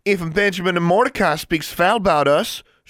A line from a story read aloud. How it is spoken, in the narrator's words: she said loudly